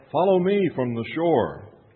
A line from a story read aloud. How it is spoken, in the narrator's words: Jesus called out